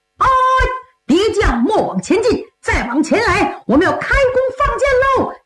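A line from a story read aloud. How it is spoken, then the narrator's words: Soldiers shouting in unison. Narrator (Chinese): 军兵 齐声高喊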